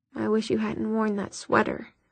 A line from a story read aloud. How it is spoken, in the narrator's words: Jace muttered